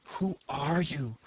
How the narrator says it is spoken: whispered the woman

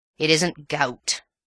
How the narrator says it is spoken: said the Major gruffly

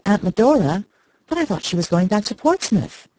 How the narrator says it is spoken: May exclaimed

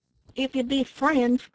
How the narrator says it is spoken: cried the one who spoke first

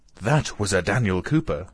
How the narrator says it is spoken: exclaimed Marya Dmitrievna, puffing heavily

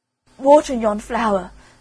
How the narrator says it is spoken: cried the boy in despair

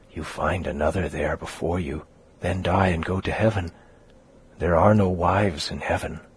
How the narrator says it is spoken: added, whispering

